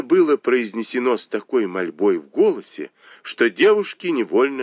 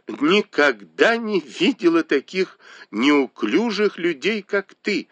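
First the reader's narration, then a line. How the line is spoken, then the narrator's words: Remark through laughter. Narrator (Russian): заметила сквозь смех Танчунь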